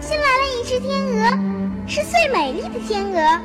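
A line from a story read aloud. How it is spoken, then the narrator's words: Children crying out. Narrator (Chinese): 孩子们叫起来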